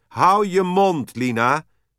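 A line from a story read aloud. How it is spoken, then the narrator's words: Mother shouting. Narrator (Dutch): riep Michiels moeder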